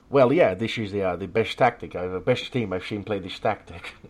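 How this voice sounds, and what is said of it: Poor put-on Dutch accent. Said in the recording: “that's enough of my horrible Dutch accent ... you sound pretty bad.”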